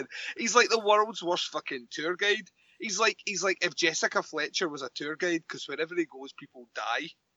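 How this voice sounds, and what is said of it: Strong Scottish accent. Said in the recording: “when I get ranty, I get very Scottish ... you will hear how Scottish my accent went. Like, really, really Scottish.”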